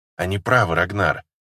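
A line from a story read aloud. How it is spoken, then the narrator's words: Soft whisper. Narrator (Russian): тихо шепнула мне Алия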